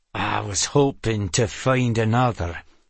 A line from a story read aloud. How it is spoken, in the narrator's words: Tregane said through gritted teeth